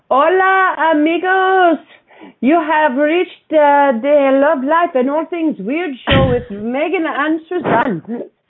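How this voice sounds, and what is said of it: Put-on Mexican accent. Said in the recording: “That was your version of a Mexican accent? ... Really, really good. Really good. So good.”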